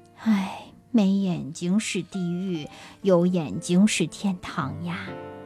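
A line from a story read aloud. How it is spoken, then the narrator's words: Blind man sighing. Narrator (Chinese): 瞎子叹气说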